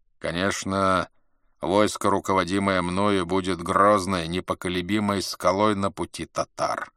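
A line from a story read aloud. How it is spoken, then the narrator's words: Plain. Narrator (Russian): сказал Мухаммед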